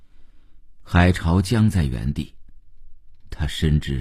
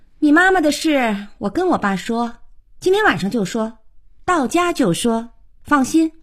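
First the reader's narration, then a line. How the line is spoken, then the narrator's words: Offhand, over shoulder. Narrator (Chinese): 小可 头也不回地说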